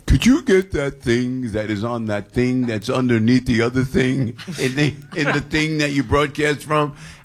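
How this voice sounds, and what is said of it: Imitates another person's voice. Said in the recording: “Why sound like that? ... That was my Andy impression. You don't really sound like that.”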